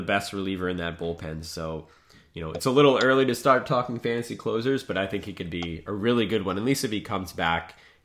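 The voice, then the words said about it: Hoarse, fading voice. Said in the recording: “You're losing your voice. I can tell. ... I'm sick.”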